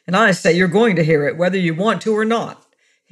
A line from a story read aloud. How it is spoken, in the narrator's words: snapped harshly